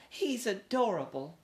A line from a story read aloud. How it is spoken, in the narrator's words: squealed Mary Lou